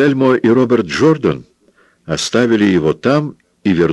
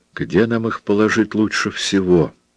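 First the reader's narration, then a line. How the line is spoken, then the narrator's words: Whispered question. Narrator (Russian): шепотом спросил Роберт Джордан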